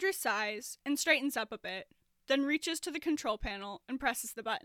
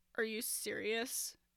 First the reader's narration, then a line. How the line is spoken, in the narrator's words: Andrew snorts